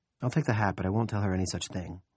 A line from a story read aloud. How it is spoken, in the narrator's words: Pamela says quietly